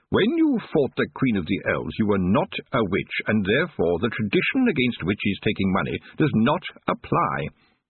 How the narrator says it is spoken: he said sharply

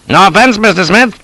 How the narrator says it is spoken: says he hastily

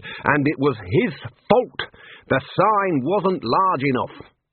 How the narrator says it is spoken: roared the Dean

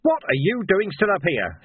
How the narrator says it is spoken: roared

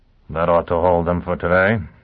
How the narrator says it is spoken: he muttered

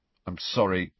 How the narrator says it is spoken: Ron mumbled

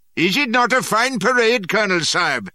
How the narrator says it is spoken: were jeering

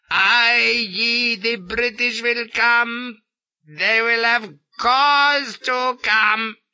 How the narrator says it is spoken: shrieks he

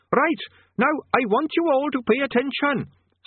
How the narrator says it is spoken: squeaked Quez Overquattle, cupping its tiny hands around its main mouth in an effort to be heard

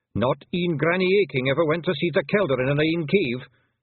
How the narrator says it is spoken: snapped Rob Anybody

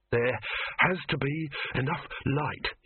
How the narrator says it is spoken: he panted

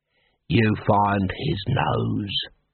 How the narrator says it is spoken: he hissed

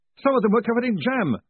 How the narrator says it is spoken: Moist shouted

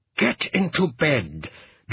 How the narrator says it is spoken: Gerald said through clenched teeth

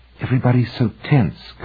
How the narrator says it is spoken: Cunningham whispered to Hoffman

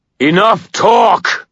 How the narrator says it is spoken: I bellowed

